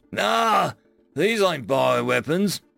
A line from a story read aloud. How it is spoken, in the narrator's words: he chuckled